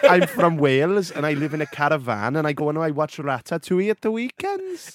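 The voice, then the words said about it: Put-on Welsh accent. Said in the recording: “Say in a Welsh accent”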